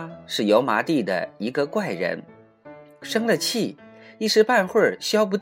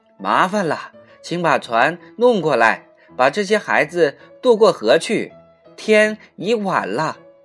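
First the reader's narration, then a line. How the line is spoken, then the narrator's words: Shouting. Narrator (Chinese): 蒋一伦亲自对毛鸭喊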